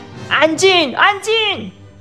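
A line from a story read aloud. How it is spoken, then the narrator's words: Shouting. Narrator (Chinese): 白兔立刻高喊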